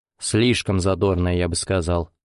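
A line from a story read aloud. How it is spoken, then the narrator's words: Contemptuous snort. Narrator (Russian): презрительно фыркнул Валерий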